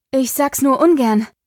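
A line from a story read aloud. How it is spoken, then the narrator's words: Panting. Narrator (German): keuchte Pandora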